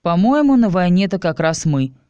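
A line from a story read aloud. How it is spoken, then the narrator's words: Snorting. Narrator (Russian): хмыкнул я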